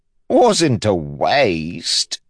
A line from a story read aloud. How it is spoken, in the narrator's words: DeChamps said, chuckling